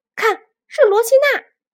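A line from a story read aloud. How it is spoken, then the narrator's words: Shouting chubby kid. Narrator (Chinese): 小胖墩儿喊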